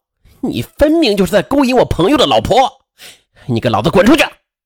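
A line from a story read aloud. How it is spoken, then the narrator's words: Furious shouting. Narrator (Chinese): 肖立健怒火中烧，吼叫道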